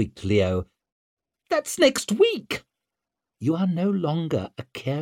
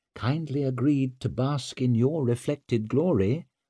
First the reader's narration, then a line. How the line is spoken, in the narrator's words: murmured Leo's mother